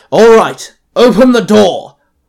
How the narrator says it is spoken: Calder barked

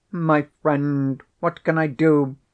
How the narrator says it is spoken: cried the professor piteously

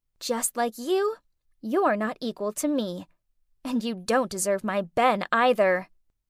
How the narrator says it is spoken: Faye then turned around and whispered

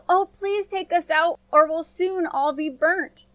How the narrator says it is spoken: Again, the bread cried out

